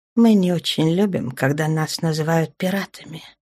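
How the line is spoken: Quiet, stony voice. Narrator (Russian): тихо сказала Аврора, закаменев лицом

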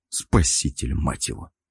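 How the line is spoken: Grumbled. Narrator (Russian): Буркнул

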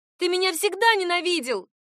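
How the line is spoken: Shout. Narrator (Russian): крикнула

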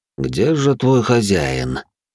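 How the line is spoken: Almost tender address. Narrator (Russian): почти ласково обратился пламенеподобный

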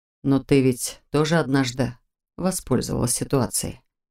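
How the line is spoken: Whisper. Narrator (Russian): прошептал он

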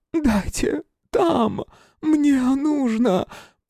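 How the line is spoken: Woman's hoarse rasp. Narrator (Russian): прохрипела женщина

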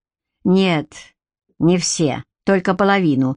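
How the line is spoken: Smirking. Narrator (Russian): хмыкнул Гарик, хотя был не в том настроении, чтобы пикироваться с братом

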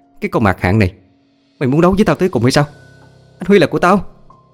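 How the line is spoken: Furious woman's scream. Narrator (Vietnamese): Thấy cảnh đó không chịu đựng được, ả thét lên

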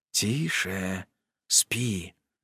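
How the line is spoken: Soft whisper. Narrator (Russian): нашептываю

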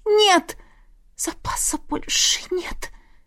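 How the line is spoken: Whisper. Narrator (Russian): прошептала

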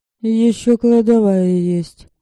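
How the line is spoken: Dry remark. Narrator (Russian): сухо заметила Мария

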